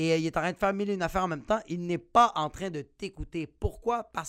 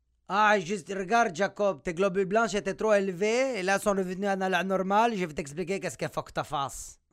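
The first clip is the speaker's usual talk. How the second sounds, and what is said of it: Put-on accent imitating a doctor. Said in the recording (French): “je vais arrêter de faire l'accent”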